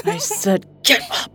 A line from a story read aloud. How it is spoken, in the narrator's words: Wendy snarled